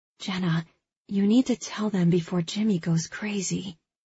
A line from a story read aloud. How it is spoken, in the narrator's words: Josie whispers in my ear